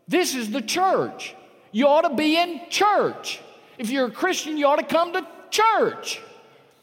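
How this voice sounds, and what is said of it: Raised, loud preaching voice. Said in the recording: “I know I'm raising my voice”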